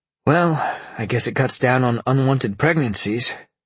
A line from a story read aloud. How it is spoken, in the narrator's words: Sean sighed